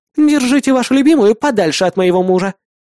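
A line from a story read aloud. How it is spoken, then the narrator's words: Woman snapping. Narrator (Russian): огрызнулась дама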